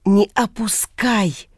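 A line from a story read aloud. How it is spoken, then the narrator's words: Whisper. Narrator (Russian): кто-то шепнул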